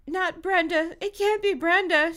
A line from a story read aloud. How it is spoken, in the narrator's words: cried